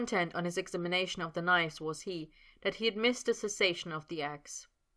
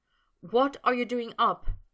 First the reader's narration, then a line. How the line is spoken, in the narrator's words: Potter said anxiously